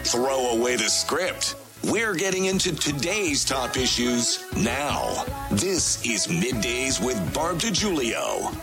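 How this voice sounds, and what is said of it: Big radio announcer voice. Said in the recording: “the big announcer voice”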